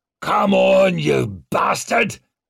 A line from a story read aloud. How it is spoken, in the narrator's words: he snarled